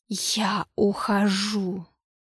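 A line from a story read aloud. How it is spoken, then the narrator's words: Hissing. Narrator (Russian): прошипел Йоксатхотх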